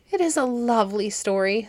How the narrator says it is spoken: said Alex, with a sigh of content

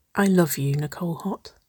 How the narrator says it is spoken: whispered

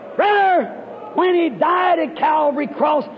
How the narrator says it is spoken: he cried

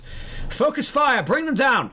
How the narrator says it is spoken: she immediately shouts

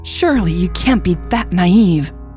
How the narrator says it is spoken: Becker barked

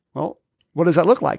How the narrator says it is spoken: I said

